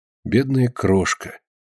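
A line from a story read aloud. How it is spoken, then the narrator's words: Quiet speech. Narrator (Russian): тихо проговорила Полина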